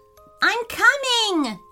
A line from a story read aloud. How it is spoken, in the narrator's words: yelled Dean, his brother